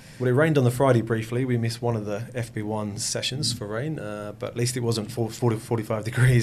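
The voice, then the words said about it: Speaks with a noticeable accent. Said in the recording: “I can hear an accent there.”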